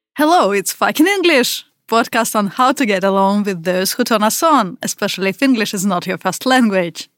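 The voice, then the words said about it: Russian accent. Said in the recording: “I'm from Russia. And you probably already hear that by my accent.”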